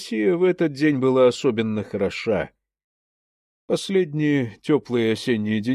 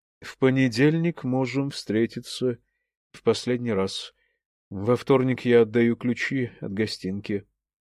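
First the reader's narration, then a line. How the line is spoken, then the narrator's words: Quiet. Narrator (Russian): тихо сказала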